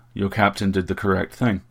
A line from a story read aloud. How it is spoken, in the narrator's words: he said